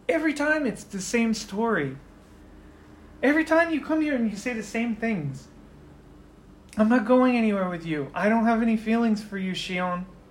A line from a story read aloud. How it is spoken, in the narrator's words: Yuki just kind of sighs